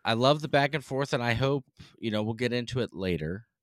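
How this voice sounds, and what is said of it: Northeastern US accent. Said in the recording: “You can tell we're from the Northeast ... based off this accent”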